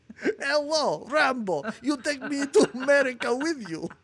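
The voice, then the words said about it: Put-on Russian accent. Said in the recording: “She's not Russian. She's not Russian. You mixed up your ... Russian. ... do that voice.”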